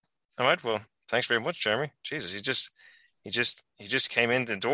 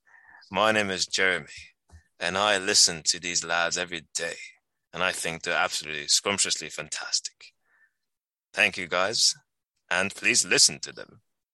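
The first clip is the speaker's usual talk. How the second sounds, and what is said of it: Put-on sexy character voice. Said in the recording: “with a sexy voice”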